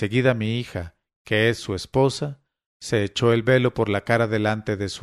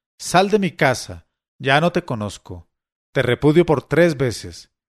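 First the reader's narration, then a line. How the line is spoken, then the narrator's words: Bad-tempered shout. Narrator (Spanish): se dejó llevar de un acceso de mal humor y le gritó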